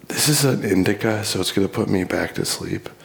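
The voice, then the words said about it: Whispering. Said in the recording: “I'm whispering right now”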